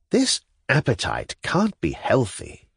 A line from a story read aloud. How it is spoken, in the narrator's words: murmured to himself